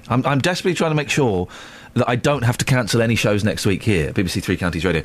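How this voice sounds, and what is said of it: Deep, hoarse, failing voice. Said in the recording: “I'm losing my voice. ... It sounds like it. ... you sound like Barry White.”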